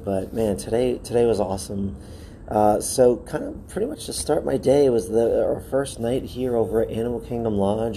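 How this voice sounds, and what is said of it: Slightly hoarse, strained voice. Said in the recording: “I've lost it just a slight bit from all the screaming I was doing today”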